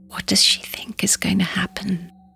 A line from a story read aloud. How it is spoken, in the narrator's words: I'd whispered the words